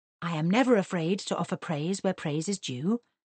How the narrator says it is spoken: he murmured

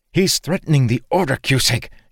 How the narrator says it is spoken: she hissed

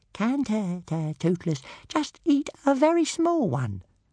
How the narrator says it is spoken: asked Toothless in a very small voice

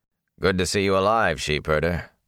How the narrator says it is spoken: Lan said gruffly

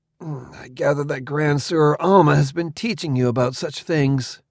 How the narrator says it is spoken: I grunted

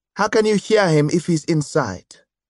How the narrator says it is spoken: Geoffrey asked

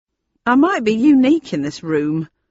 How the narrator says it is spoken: he said in a loud, clear voice

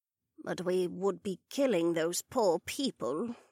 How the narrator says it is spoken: Betty said quietly

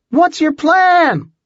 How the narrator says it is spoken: she shouted, trying to be heard over the rotors

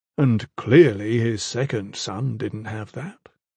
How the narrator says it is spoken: Orholam mocked, but gently

